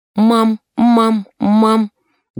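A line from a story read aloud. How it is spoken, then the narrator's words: Ringing childlike voice. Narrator (Russian): говорит баб Соня звонким детским голосом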